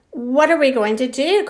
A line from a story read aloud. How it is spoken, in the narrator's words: cried Susie